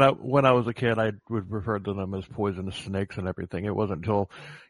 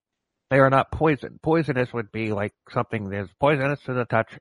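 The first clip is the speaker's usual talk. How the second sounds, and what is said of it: Mock expert herpetologist voice. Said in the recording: “doing my herpetologist voice”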